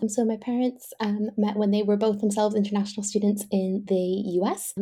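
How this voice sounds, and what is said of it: Slight mixed international accent. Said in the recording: “where the accent's from, I will probably explain the slight melting pot that's going on”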